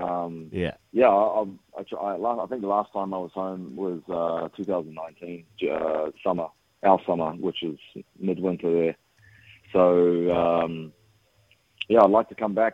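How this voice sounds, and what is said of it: Twangy American-sounding accent. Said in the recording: “You're American now. I can hear it in your twangy voice.”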